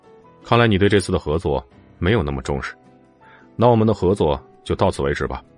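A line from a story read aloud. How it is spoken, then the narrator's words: Cold voice. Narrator (Chinese): 冷冷的声音传了过来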